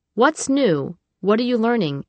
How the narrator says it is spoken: Pete's interviewer asked

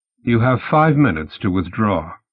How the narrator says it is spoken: the captain said in a low voice that was slow and a little tired

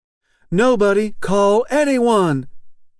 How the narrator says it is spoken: Joelle shouts up and out

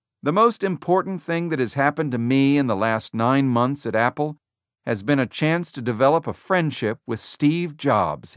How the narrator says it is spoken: he said

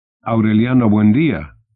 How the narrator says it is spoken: said

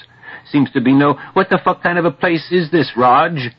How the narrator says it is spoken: yelling down slantwise

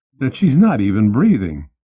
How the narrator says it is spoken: Amaranta Ursula said, suppressing her laughter

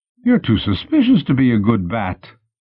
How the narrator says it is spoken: laughed, disturbed

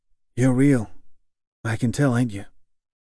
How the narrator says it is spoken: the man whispered

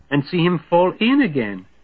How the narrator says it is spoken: yells one of them

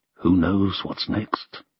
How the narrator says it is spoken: muttered Stalin

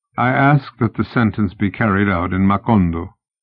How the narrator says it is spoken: he said

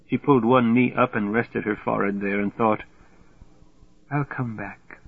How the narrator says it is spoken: she said very quietly

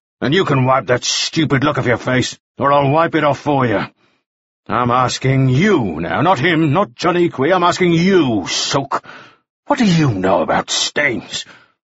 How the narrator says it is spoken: snarled

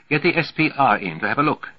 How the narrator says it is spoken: giggles someone with a cigar

